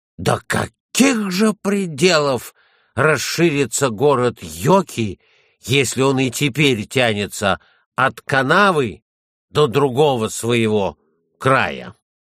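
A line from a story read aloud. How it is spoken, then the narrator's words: Sudden amazed exclamation. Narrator (Russian): Антти вдруг воскликнул с изумлением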